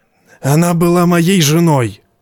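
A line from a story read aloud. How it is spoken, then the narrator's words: Hoarse rasp. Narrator (Russian): прохрипел он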